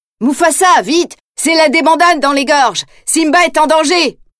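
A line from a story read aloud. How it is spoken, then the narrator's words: Shouted urgently. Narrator (French): crie-t-il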